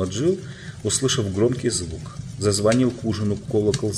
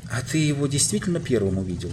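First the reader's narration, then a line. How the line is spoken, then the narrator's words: Plain. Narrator (Russian): спросила Джил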